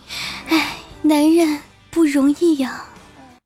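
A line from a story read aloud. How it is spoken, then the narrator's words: Sighing remark. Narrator (Chinese): 忍不住感叹一句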